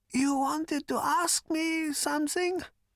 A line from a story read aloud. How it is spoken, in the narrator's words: said Prak in a thin voice and coughed slightly